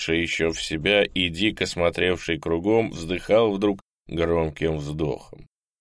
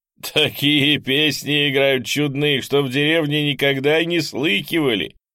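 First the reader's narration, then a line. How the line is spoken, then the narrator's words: Laughing. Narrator (Russian): сказал, смеясь, тот, который вбежал в блиндаж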